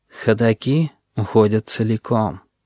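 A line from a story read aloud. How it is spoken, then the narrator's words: Sighing, reproachful. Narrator (Russian): вздохнул, с упреком, сказал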